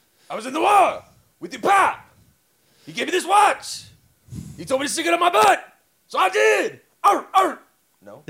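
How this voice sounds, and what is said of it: DMX impression, gruff barking voice. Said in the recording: “do that in a DMX voice”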